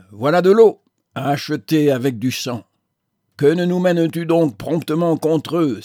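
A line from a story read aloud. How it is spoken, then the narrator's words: Soldier crying out. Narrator (French): s'écria un soldat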